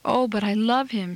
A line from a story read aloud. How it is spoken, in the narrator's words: she sobs pitifully